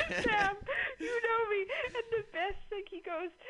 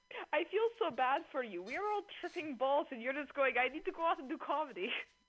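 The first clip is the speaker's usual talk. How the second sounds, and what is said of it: Put-on Russian accent. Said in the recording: “the Russian guy ... You did an accent. I appreciate that. ... Yeah, I do accents.”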